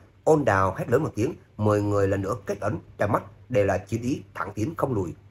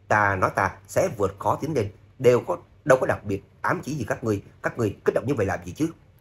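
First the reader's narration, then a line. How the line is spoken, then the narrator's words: Shameless shout back. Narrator (Vietnamese): Trác Phạm vô sĩ không nhận nợ, cũng trừng mắt quát lại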